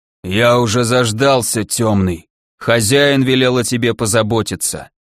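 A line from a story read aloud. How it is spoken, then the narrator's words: Hoarse rasp. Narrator (Russian): прохрипел некромант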